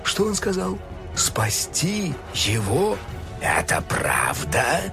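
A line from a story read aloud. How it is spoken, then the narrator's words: Hissed. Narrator (Russian): прошипел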